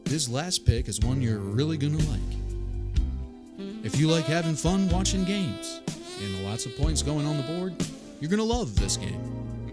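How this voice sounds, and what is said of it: Very smooth voice. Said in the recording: “I'll speak in my very smooth voice.”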